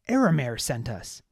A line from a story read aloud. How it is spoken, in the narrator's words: Baz shouted